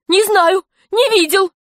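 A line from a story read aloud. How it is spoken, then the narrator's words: Nearly shouting. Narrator (Russian): почти кричал Ишутин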